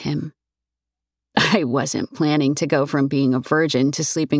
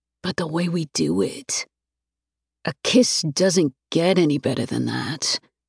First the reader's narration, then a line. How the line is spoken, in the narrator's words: he murmurs